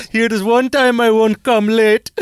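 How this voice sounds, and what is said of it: Put-on Indian accent. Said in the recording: “Indian accent talking dirty”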